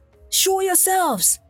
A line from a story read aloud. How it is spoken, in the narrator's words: cried